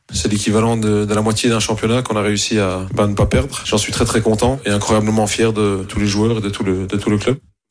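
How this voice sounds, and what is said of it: Belgian accent. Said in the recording (French): “il est belge, d'où son accent”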